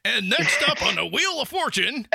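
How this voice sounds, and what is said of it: Booming radio announcer voice. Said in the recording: “I got like a radio announcer voice today ... You're like a game show host.”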